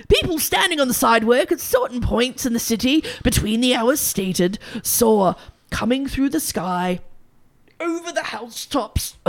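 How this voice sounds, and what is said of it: Fake put-on accent, strained. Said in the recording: “I'm going to choke by my fake accent... It's robbed you of your shitty accents.”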